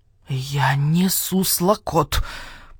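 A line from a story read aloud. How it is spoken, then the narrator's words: Mutter. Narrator (Russian): Пробормотал барсукот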